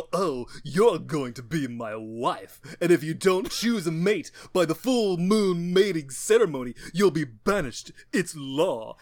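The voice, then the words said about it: Tim Curry impression. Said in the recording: “that specific Tim Curry impression.”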